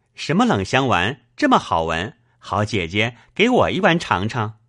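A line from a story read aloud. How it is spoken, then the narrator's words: Laughing. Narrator (Chinese): 宝玉笑道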